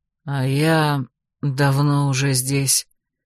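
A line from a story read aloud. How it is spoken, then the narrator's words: Hoarse voice from behind. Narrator (Russian): раздался за спиной хриплый голос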